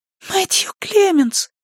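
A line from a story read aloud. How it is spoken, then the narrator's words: Whispered. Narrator (Russian): прошептал голос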